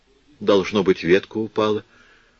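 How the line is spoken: Quietly to herself. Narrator (Russian): говорит тихонько сама себе

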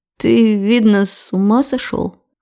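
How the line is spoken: Hoarse. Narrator (Russian): Хриплю я

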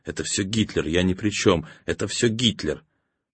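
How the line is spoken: Whisper. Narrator (Russian): Риббентроп бежал следом и шептал

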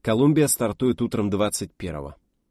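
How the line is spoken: Even, level voice. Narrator (Russian): сказал он ровным голосом

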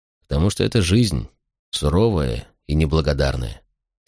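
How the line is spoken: Quiet answer. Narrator (Russian): тихо ответил я

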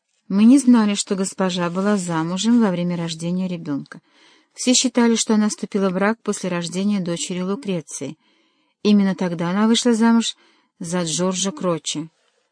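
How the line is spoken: Mumble. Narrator (Russian): пробормотал Паллавичини

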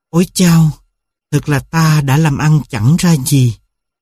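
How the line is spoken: Sighing. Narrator (Vietnamese): Một người thở dài

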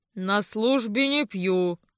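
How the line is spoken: Booming drone. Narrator (Russian): прогудел

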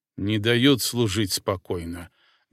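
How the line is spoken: Pointed grumble. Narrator (Russian): демонстративно пробурчал

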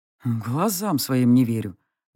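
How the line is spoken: Muttering. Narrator (Russian): наконец пробормотал он

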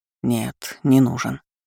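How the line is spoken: Quiet reply. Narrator (Russian): так же тихо ответил он

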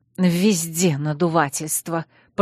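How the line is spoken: Hissing. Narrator (Russian): прошипел Виктор

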